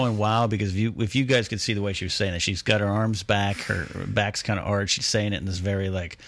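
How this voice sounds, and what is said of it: Usual voice. Nothing is said of it.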